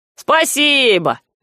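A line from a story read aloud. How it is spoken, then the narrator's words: Cheerful shepherd's shout. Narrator (Russian): жизнерадостно крикнул пастух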